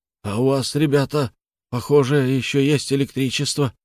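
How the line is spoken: Hoarse rasp. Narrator (Russian): прохрипел

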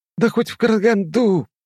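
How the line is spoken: Hissed reply. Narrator (Russian): прошипел он в ответ

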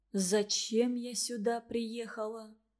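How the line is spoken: Whisper. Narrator (Russian): прошептала Варя

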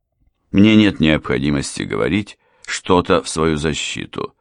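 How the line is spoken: Calm aristocratic announcement. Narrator (Russian): спокойно объявил аристократ

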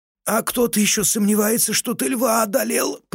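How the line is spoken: Groan. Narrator (Russian): простонал Иолай, потирая ребра

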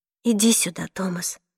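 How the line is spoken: Whispered. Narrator (Russian): прошептала я

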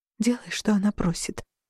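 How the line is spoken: Barely audible whisper. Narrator (Russian): прошептала я так тихо, что едва сама расслышала

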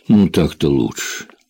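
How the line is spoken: Muttered. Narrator (Russian): пробормотал Джек

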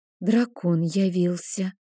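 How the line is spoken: Frightened whisper. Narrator (Russian): испуганно прошептала ведьма

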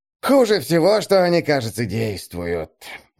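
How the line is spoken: Sigh. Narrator (Russian): вздохнул Есас

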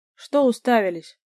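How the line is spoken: Barked. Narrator (Russian): рявкнул на них Лешик

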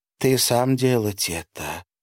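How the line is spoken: Feminine-voiced question. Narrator (Russian): спросил альбинос женским голосом

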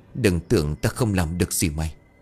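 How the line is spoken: Bravado masking fear. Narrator (Vietnamese): Trong lòng dù đang run rẩy nhưng lão vẫn cứng miệng

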